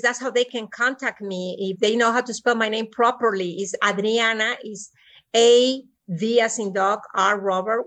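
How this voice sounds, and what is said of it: Speaks with a noticeable accent. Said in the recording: “In spite of my accent”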